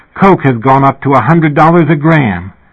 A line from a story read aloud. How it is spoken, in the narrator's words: suddenly sitting bolt upright in the middle of the night and exclaiming